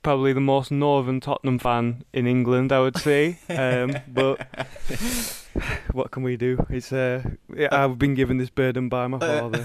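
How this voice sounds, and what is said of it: Thick Lancashire accent. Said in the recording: “that thick Lancashire accent”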